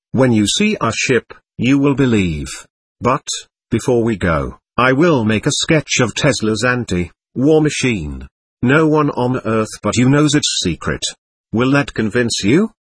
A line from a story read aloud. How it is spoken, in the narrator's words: The one who appeared to be the leader answered calmly